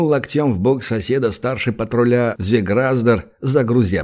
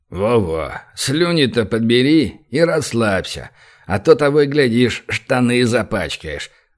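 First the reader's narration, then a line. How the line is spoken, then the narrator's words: Laughing loudly. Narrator (Russian): Захохотал Звеграздер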